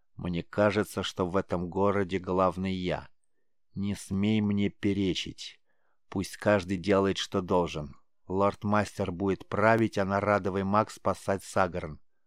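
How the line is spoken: Calm, even voice. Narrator (Russian): невозмутимо ровным голосом произнес он

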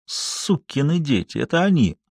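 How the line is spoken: Quiet cursing. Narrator (Russian): Он негромко чертыхнулся

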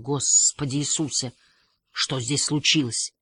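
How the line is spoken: Whisper. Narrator (Russian): Халварсон ... прошептал

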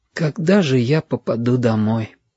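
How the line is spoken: Child's whisper. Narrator (Russian): шепотом сказал мальчик

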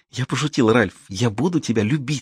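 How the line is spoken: Passionate whisper. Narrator (Russian): страстно прошептала она

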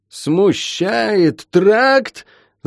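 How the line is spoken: Furious yell. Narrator (Russian): заорал покрасневший от злости Шен

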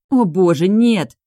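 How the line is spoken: Indignant exclamation. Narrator (Russian): восклицаю возмущенно

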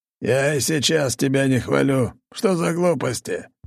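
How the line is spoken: Hoarse rasp. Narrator (Russian): Прохрипел он

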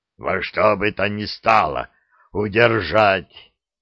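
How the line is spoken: Hoarse rasp again. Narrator (Russian): вновь прохрипел Гейдрих

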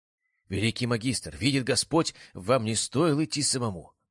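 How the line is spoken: Knight exclaiming. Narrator (Russian): воскликнул один из сопровождавших его папских рыцарей

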